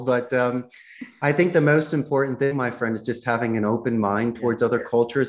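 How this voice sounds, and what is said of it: Philadelphia accent. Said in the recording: “I emphasize my Philadelphia accent a little bit more.”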